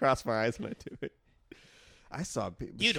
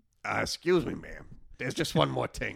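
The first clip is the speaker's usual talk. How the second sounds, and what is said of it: Imitates another person's voice. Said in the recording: “I think I've heard you do a good Peter Falk before, though.”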